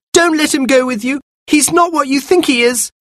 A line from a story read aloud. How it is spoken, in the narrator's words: Anthea cried